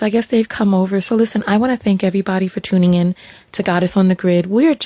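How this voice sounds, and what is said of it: Usual voice. Nothing is said of it.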